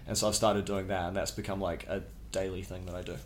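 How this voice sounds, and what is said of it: Speaks with a non-local accent. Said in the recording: “you're our first guest with an accent.”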